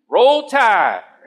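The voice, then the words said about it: Put-on Alabama accent. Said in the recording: “with an Alabama accent,”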